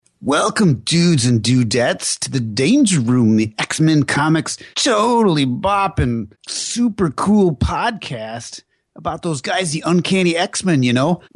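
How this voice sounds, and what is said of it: Bad generic surfer-dude voice, Bill and Ted. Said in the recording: “mine was pretty bad ... They were generic Beavis and Butthead ... I think we were more mirroring Bill and Ted”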